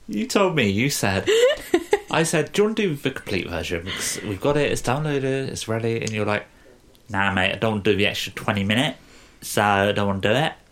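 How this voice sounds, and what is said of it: Bad put-on Essex accent. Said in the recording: “That was the worst Essex accent I've ever heard in my entire life.”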